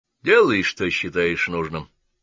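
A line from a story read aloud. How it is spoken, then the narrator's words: Gloomy. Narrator (Russian): мрачно произнес Гаунт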